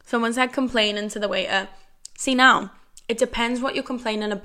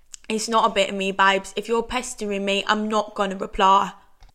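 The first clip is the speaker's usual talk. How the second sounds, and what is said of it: Deliberately bad put-on accent. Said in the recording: “That was such an awful accent”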